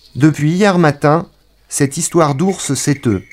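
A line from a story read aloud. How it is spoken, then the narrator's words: Plain. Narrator (French): dit le gendarme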